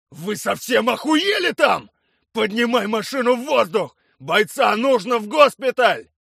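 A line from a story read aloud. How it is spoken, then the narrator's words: Shouting. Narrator (Russian): кричал Блинов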